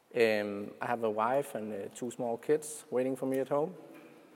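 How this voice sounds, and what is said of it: Danish-accented English. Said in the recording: “I'm from Denmark, so that's the reason for the weird accent.”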